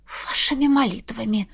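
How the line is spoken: Breathless, shaken. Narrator (Russian): Выдохнула я, пытаясь прийти в себя

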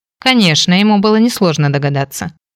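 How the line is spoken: Wry snort. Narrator (Russian): хмыкнул Кейн

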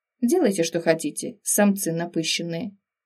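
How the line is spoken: Grumbled. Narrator (Russian): пробурчала

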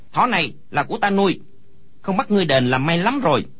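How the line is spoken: Angry child's loud shout. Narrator (Vietnamese): Đứa trẻ kia đột nhiên lông mày dựng ngược, hai mắt mở to quát lớn

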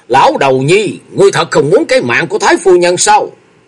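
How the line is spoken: Angry shout. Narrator (Vietnamese): tức giận hét lớn

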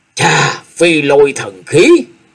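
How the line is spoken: Crying out. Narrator (Vietnamese): Hải Ma giáo chủ kêu lên

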